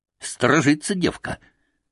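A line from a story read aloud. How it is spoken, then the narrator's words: Whispered. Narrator (Russian): прошептал Алексашка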